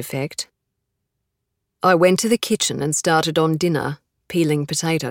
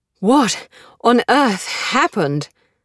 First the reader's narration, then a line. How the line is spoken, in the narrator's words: I said, panting